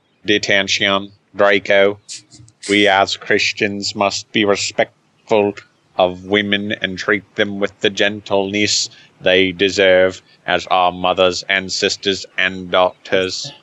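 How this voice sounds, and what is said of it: Wobbly Snape accent, Dalek-like. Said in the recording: “the accent gets more and more nebulous ... it's not nebulous ... It's a little more Dalek.”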